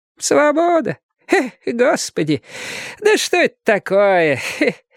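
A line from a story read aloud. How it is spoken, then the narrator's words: Laughing question. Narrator (Russian): спрашивала одноглазка и смеялась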